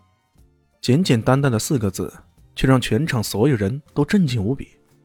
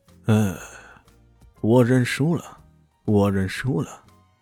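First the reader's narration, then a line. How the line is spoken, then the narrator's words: Sighing, resigned. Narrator (Chinese): 吉田终于叹息一声，说道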